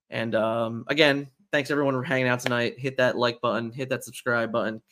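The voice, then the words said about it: Hoarse, fading, tired voice. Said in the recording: “I'm losing my voice. I'm still tired.”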